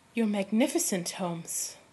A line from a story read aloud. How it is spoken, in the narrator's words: breathed